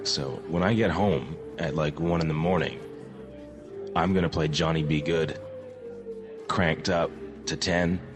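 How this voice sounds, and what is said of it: Slightly hoarse voice. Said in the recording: “I'm a little hoarse today.”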